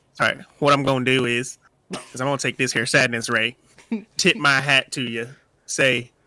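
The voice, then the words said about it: Put-on Southern cowboy accent. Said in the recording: “where's that Southern accent, boy? ... It's right in character.”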